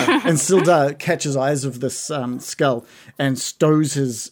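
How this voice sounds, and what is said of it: Usual voice. Nothing is said of it.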